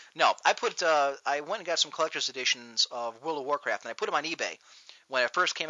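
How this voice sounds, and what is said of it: Usual voice. Nothing is said of it.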